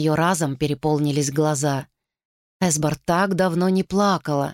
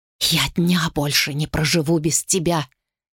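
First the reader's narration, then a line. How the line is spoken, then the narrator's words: Whispered. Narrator (Russian): шепнула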